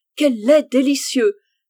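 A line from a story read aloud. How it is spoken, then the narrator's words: Exclaiming. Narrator (French): s'écria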